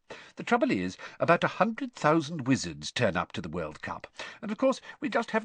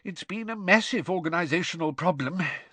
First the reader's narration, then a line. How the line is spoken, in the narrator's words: sighed Mr